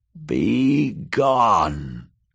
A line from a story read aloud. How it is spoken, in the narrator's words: croaked Maggie a third time